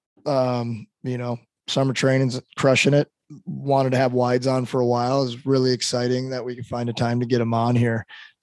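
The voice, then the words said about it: Hoarse, strained voice. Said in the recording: “My voice is starting to go. ... doing a lot of yelling. ... Might get a couple of puberty cracks there.”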